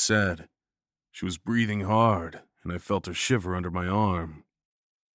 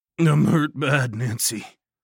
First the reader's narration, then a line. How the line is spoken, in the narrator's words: groaned